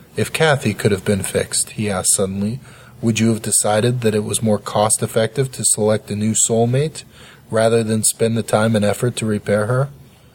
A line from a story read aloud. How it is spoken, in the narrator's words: I sighed in frustration